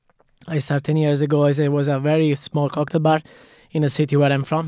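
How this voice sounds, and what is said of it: Italian accent. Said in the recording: “I'm Italian, of course, from my accent.”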